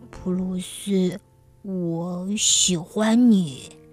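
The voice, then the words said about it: Gentle, tender voice. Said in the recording (Chinese): “咪咪用温柔的声音说”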